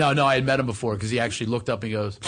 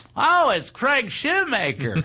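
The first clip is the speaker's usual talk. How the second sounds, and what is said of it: Imitates another person's voice. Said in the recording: “good impression”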